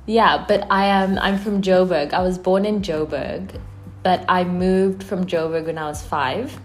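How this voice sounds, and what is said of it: American-sounding accent. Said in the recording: “Your accent is very, very American. ... My accent is American ... Americans think I sound British ... the Brits think I sound Canadian ... some sort of amalgamation”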